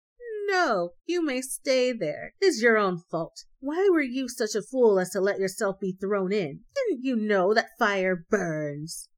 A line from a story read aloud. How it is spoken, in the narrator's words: the little hare only laughed and said